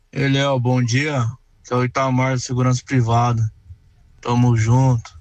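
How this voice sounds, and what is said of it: Listless, unenthusiastic sleepy voice. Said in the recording (Portuguese): “olha a voz do garoto ... Ó, que desânimo”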